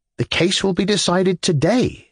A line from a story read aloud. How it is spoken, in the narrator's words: I cried, amazed